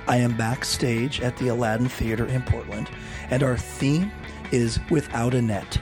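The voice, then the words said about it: Hoarse, strained weird voice. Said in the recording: “Sorry about this weird voice... I got laryngitis a couple days ago, and I have been trying to stay on vocal rest”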